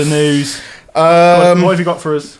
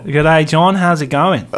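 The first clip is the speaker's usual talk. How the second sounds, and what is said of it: Put-on Australian accent. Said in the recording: “Have you got an Aussie? That was a bit of an Aussie there. ... That was really good.”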